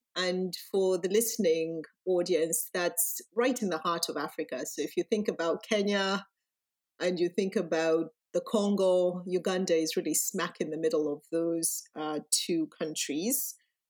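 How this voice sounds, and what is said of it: Ugandan accent. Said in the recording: “my background, which is what you hear in my accent, is I was born and raised in Uganda”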